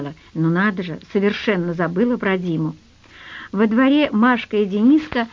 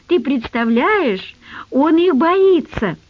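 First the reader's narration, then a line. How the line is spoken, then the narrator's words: Happy giggling. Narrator (Russian): Дениска радостно хихикал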